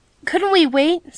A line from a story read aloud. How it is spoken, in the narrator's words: suggested Betsy timidly